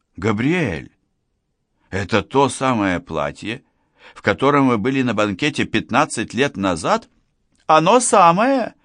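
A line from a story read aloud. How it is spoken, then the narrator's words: Exclamation. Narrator (Russian): воскликнула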